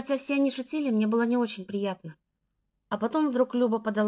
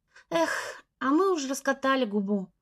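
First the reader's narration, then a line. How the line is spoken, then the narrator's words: Girl's sigh. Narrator (Russian): вздохнула рыженькая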